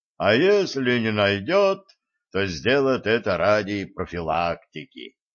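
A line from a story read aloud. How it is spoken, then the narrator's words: Boomed. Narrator (Russian): прогудел Константин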